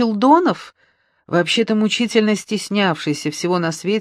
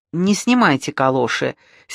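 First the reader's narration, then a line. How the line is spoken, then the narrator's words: Angry command. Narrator (Russian): сердито приказала Маруся Челдонову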